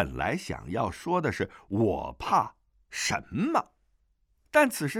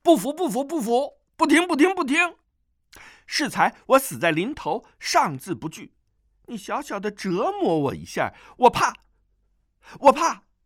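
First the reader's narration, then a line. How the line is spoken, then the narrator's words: Loud. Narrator (Chinese): 段誉大声道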